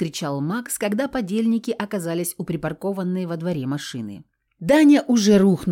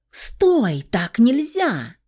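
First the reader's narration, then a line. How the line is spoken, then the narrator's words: Disbelieving scream. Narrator (Russian): завопила Аня, не веря в происходящее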